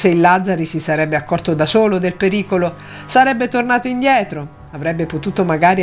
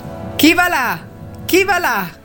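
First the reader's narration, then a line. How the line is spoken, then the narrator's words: Sentry shouting repeatedly. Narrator (Italian): gridò per la terza volta la sentinella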